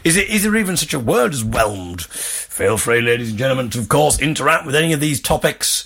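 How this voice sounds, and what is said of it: Fake northeast English accent. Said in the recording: “putting on a fake northeast accent”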